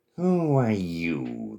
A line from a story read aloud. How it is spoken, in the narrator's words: They purred